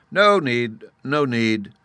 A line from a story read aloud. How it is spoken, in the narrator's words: the sub-warden and the Chancellor exclaimed at the same moment, with feverish eagerness